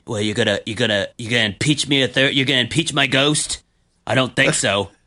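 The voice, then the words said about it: Imitates another person's voice. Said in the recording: “my best possible Trump impersonation ... that was way better than anything I could have uh, attempted there ... he's got a um, hard voice to uh, impersonate”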